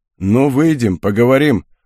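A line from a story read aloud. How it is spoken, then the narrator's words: Menacing mutter. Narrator (Russian): угрожающе буркнул тот, кто стоял с ножом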